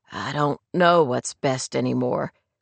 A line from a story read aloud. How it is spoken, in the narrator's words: Clay admitted quietly